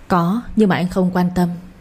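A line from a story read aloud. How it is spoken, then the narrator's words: Gentle smiling reply. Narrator (Vietnamese): Anh mỉm cười nhẹ nhàng đáp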